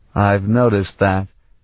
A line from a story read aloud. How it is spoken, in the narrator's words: he said dryly